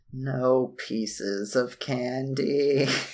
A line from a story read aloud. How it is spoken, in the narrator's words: I quietly mutter to myself